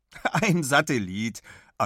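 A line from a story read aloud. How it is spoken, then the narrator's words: Laughing. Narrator (German): antwortet Big lachend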